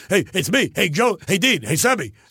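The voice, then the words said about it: Imitates another person's voice. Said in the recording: “you talk like a little like, you know, Jackie Mason ... I sound exactly like him”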